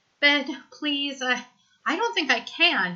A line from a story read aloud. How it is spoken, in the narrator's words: he gasps